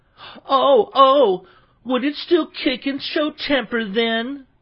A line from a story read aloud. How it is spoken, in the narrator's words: cried Seriosha